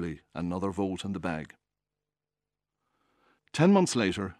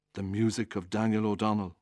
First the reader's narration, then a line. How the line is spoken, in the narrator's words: told me wistfully